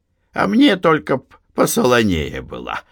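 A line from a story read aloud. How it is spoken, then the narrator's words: Cheerful joking. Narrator (Russian): весело пошутил он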